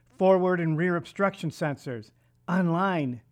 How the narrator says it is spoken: Jennifer excitedly replied

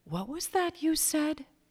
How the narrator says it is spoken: he asked softly

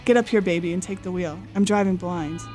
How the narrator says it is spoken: his mother said in a sharp voice

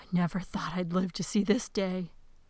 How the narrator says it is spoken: The queen kept tittering and muttering to herself

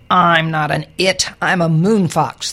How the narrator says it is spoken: the creature snapped

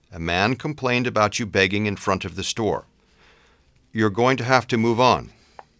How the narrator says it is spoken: sighed heavily

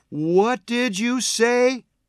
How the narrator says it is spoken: Tina demanded in a loud voice

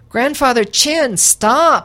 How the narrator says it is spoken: I shouted up to the rooftop

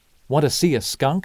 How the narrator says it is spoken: I asked

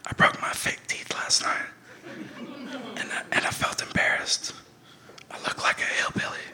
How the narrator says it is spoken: whispered in her ear

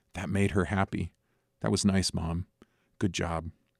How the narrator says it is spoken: I whispered in Mom's ear

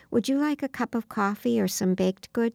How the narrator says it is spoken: coaxed gently

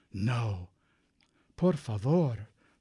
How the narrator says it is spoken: Paco pleaded in a whisper

